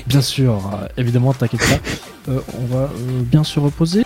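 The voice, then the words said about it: Put-on regional French accent. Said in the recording (French): “Pourquoi je prends cet accent? ... parce que je suis pas de là du tout ... je suis pas de Calais ... Je sais pas pourquoi je prends un accent comme ça. Là. J'aime bien le faire, celui-là, il est marrant.”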